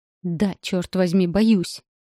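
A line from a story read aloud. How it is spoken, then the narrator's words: Angrily spat. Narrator (Russian): Зло выплевываю я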